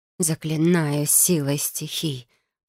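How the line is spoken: Whispered. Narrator (Russian): прошептала я

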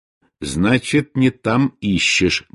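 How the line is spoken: Grumbling mutter. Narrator (Russian): буркнул Бенедикт

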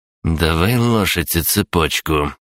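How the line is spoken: Small boy, through teeth. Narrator (Russian): процедил паренек с ноготок

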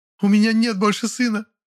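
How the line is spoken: Sobbing lament. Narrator (Russian): Сквозь рыдание причитала она

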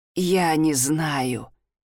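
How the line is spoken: Wheezed. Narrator (Russian): прохрипел

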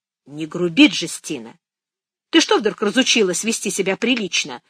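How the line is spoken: Stern question. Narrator (Russian): строго спросила Фия

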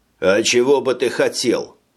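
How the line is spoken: Mocking question. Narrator (Russian): насмешливо спросил кто-то

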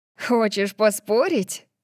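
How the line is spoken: Laughing. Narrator (Russian): Тори рассмеялась

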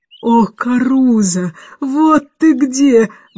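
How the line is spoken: Exclamation. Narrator (Russian): воскликнула мисс Эндрю

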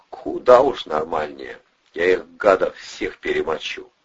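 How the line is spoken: Solemn vow. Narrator (Russian): торжественно поклялся Бандура

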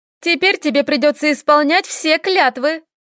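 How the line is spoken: Laughing. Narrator (Russian): проговорила, смеясь

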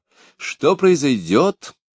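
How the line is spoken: Exclamation. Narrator (Russian): воскликнула Екатерина Алексеевна

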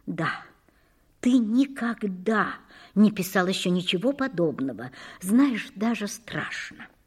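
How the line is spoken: Quiet speech. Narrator (Russian): говорила тихо

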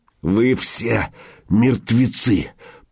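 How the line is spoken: Hoarse rasp. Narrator (Russian): прохрипел Михаил

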